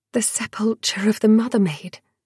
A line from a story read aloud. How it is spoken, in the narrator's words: Dior whispered